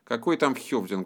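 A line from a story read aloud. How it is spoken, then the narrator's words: Grumbled. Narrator (Russian): буркнул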